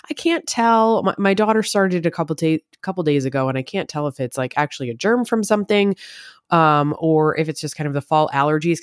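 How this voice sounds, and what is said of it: Slightly scruffy, congested voice. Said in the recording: “I have a little bit of a thing going on in my throat and a little bit in my nasal passages today ... sniffles ... My voice is a little bit more scruffy.”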